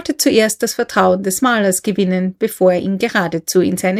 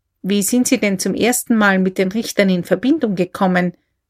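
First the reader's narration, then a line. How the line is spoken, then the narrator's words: Plain. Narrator (German): fragte K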